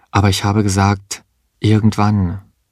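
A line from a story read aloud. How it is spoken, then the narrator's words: Calm. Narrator (German): sagte sie ruhig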